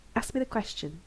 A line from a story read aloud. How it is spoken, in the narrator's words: he says softly